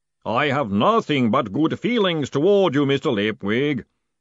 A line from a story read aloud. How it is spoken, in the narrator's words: boomed the voice cheerfully